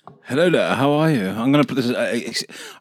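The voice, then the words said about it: Exaggerated English accent. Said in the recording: “I'm going to really accentuate the English accent for the whole of this thing”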